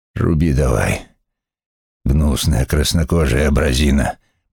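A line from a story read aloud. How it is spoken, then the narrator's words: Growling. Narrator (Russian): прорычал он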